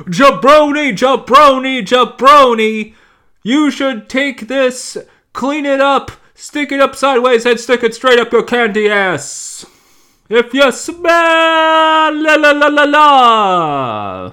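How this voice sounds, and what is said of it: Bad impression of The Rock. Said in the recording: “I was doing The Rock. It's a really bad Rock impression.”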